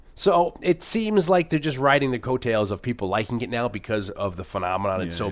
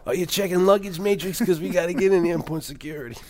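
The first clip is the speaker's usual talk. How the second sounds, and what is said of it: Imitates another person's voice, poorly. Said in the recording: “terrible David Patrick Kelly impression”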